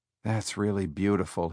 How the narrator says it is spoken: he murmured

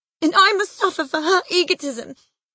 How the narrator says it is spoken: she sobbed

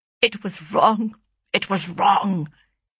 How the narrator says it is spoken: he muttered at length

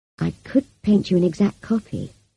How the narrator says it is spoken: I said gently

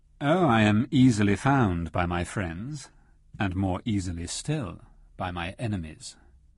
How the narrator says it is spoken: replied Rashly coolly

